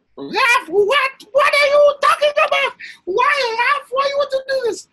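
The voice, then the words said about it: Impression of speaker's mother. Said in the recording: “Great impression of your mom”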